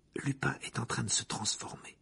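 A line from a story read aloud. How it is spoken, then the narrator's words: Murmur. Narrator (French): murmura Hermione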